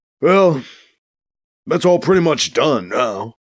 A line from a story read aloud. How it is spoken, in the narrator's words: Edwards sighs